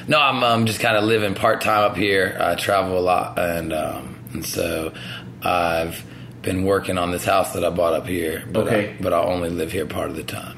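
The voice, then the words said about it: Raspy, smoker-like voice. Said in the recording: “You sound like you've been smoking like six packs a day for the past 12 fucking years... I got a raspy voice these days.”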